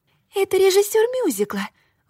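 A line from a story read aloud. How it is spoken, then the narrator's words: Exclamation. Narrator (Russian): воскликнула Зоя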